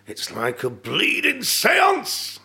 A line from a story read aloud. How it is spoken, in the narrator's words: he shouted